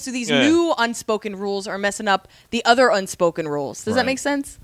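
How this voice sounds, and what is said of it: Loud, yelling speech. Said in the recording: “Sorry, I'm yelling.”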